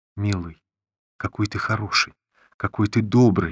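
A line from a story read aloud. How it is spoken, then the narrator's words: Trembling voice. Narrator (Russian): говорила она дрожащим голосом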